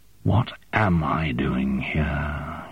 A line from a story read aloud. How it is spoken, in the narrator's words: breathed